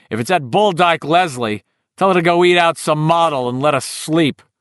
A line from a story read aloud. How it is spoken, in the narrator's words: yelled crossly